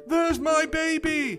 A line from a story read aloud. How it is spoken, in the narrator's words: shouted Mrs